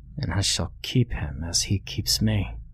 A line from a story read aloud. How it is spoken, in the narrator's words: the boy muttered